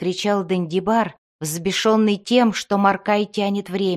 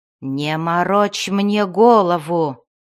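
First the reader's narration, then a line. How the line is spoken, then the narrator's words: Growled. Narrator (Russian): прорычал чародей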